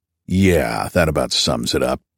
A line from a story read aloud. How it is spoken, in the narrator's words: Garfield growled